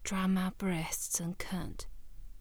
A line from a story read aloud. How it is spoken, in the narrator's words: murmuring seductively